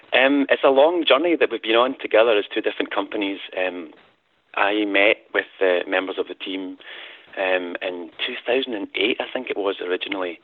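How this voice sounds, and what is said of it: Scottish accent. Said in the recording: “bit of an accent ... I am Scottish indeed, yeah, as you can tell from my accent”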